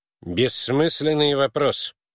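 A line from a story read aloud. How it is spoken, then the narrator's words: Irritated. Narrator (Russian): раздраженно ответил Твиссел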